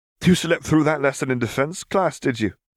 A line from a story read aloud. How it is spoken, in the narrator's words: laughed Ignis